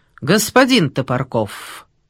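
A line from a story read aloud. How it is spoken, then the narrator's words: Ominous tone. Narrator (Russian): зловещим тоном сказал конногвардеец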